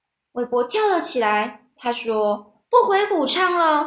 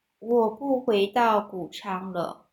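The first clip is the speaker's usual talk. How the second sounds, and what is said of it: Very quiet, near-inaudible speech. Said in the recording (Chinese): “他非常小声的说话。小到韦伯几乎听不到了。”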